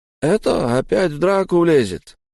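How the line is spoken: Convinced sigh. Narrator (Russian): убежденно вздохнул толстяк Айс

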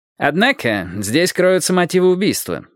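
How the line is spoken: Plain. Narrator (Russian): сказал Райкер

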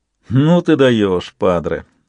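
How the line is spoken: Sarcastic snort. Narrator (Russian): Фраучи саркастически хмыкнул

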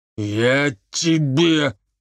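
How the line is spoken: Menacing hiss. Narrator (Russian): угрожающе прошипел Соколовский

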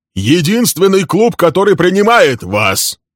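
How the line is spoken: Shouting after someone. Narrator (Russian): крикнул Билл ему вдогонку

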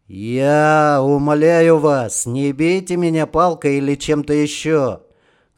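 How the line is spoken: Loud. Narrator (Russian): громко сказал Романов

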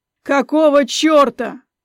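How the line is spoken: Full-voiced shout. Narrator (Russian): выкрикнул в полный голос

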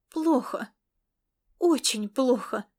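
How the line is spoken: Sudden exclamation. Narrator (Russian): воскликнула она неожиданно для себя

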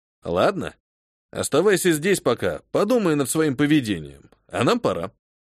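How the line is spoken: Matter-of-fact tone. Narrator (Russian): произнес я обыденным тоном

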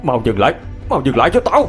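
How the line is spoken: Irritated yelling. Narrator (Vietnamese): Ông nhíu mày, bắt đầu la hét

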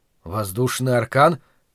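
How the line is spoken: Questioning mumble. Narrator (Russian): вопросительно пробормотал я

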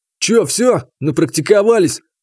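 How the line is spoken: Mocking snort. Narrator (Russian): хмыкнул Игнат

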